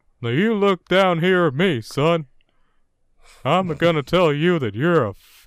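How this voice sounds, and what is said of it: Cartoon Texan drawl impression. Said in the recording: “talked like Hank Hill ... my Hank Hill impersonation”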